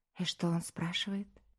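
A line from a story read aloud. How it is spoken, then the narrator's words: Quiet nervous question. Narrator (Russian): Аня тяжело сглотнула и тихо спросила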